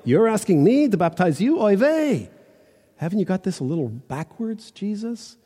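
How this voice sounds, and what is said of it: Put-on Jewish accent. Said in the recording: “read it again with a bit of a Jewish accent... this is the intonation”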